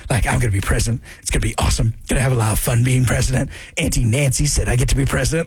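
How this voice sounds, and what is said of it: Scratchy voice imitating another person. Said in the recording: “my Gavin Newsom one ... I just got to make my voice scratchier ... Hurts the throat a little bit too much”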